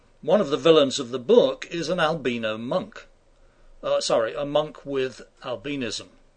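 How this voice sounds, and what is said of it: British accent. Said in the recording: “I have a British accent, as you can tell.”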